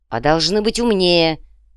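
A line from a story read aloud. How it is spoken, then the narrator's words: Sharp curt retort. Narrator (Russian): резко бросил рыцарь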